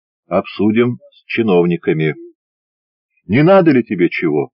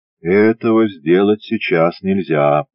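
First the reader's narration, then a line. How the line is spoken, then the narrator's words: Calm. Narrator (Russian): спокойно сказал Баранов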